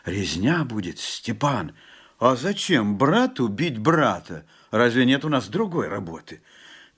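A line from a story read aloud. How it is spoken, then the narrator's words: Frightened whisper. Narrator (Russian): Жапак только прошептал в страхе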